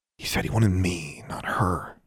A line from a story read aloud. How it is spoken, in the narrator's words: she murmured